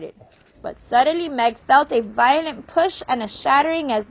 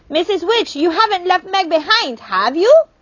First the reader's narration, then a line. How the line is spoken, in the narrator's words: Charles Wallace shouted